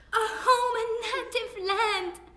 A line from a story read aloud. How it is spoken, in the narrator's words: You gasped